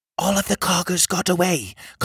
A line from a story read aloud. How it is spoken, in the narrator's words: Coglin whispered